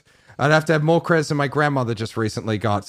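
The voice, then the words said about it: Australian accent. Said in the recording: “you're Australian ... He has a good accent”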